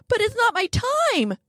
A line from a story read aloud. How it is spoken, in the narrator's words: Pete whines